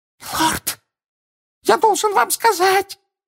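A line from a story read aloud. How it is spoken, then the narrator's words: Panicked exclamation. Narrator (Russian): панически воскликнул хвост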